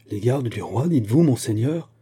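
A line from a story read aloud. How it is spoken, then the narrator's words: Frightened group exclaiming. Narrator (French): s'écrièrent les Bretons en pâlissant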